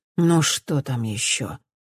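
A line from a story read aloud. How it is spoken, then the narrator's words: Woman mumbling. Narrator (Russian): бормочет женщина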